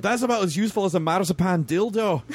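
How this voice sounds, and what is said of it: Deliberately poor Scottish accent. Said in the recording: “please forgive my terrible Scottish accent”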